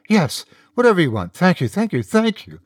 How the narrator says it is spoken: Charisse agreed eagerly

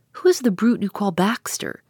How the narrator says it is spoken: The girl grinned again more cheerfully than ever

